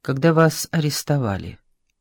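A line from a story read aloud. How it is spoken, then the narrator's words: Quiet question. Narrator (Russian): тихо спросил Блюхер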